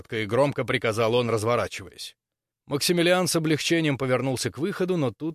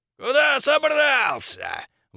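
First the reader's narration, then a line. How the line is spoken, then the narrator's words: Shrieking. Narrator (Russian): взвизгнул торговец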